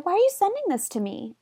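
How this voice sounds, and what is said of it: Squeaky cartoon mouse voice. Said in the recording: “in a Minnie Mouse voice ... I'm going to say it like that.”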